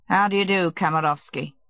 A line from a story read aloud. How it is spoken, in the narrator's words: he added, coldly